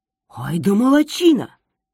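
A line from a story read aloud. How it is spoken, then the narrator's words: Father exclaiming, anger forgotten. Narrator (Russian): воскликнул отец, тут же забыв про свой гнев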